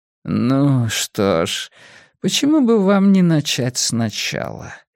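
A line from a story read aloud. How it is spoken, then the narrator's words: Unctuous psalm-reading voice. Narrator (Russian): спросил Нортон своим елейным голоском, словно предназначенным для зачитывания псалмов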